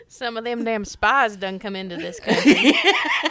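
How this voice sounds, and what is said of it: Put-on southern accent. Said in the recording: “you are getting so much better at your southern accent. ... The improvement has been remarkable.”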